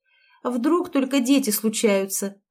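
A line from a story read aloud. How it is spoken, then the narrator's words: Girl snapping back. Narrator (Russian): огрызнулась девушка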